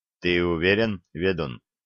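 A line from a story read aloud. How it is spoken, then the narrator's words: Barely audible question. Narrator (Russian): едва слышно спросил князь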